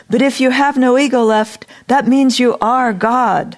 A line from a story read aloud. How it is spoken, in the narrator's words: Triumphantly, cried